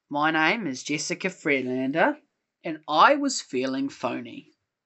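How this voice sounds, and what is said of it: Weird put-on accent. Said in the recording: “in the weirdest accent you can conjure up ... that's a 2 out of 10”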